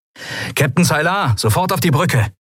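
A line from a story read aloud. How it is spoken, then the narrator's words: Calling through a speaking tube. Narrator (German): rief Sephiron in eines der Sprechrohre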